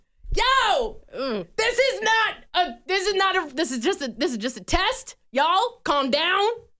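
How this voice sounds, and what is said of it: Yelling loudly. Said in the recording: “Are you gonna yell at me like that too? I feel like you're yelling at me.”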